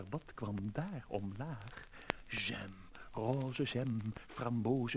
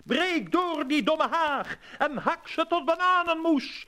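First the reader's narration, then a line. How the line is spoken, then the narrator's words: Wild, fierce shout. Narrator (Dutch): riep, wild en woest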